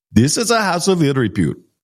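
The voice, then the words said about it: Harsh foreign accent imitation. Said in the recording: “his accent was so harsh”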